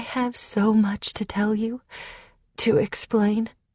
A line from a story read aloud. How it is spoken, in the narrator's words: she said in her feathery voice